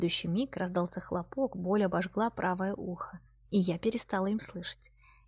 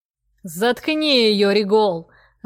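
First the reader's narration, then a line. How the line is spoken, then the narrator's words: Growled. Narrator (Russian): рыкнул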